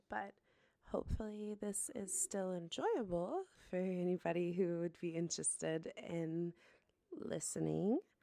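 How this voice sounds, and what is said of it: Rough, unwell-sounding voice. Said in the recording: “I'm also not feeling super well. So my voice is a little fucked up right now”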